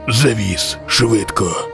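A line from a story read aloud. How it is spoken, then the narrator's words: Hoarse stranger's rasp. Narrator (Ukrainian): Прохрипів незнайомець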